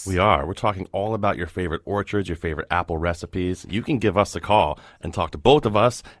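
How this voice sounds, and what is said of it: Deep put-on radio voice. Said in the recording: “I love your deep radio voice ... he's doing it for you. He's showing off for you.”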